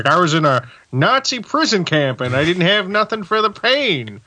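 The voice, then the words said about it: Imitates another person's voice. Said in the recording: “my Walter Matthau impression ... That was pretty good.”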